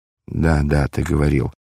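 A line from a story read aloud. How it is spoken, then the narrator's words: Embarrassed mumble. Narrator (Russian): пробормотал смущенный Варава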